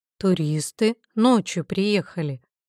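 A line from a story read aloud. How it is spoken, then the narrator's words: Plain. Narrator (Russian): ответил Вячеслав Романович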